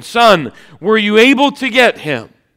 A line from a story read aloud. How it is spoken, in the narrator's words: he cried back from the boat